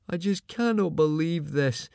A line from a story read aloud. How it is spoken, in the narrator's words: moaned Fishlegs, shivering violently